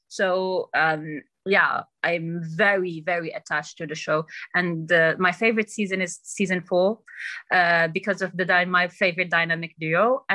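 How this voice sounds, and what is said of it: Accent picked up from TV characters. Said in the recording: “I got my accent from trying to imitate, I don't know, Cersei and shit like that, and other characters”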